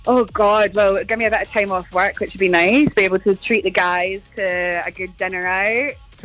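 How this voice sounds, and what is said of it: Scottish accent. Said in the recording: “I love your Scottish accent... You're from Scotland”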